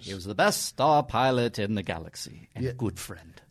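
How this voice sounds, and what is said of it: Obi-Wan Kenobi impression. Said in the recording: “great impression”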